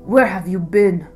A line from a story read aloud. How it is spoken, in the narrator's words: King McCall rasped